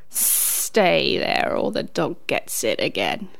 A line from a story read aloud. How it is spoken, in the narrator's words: said the snake menacingly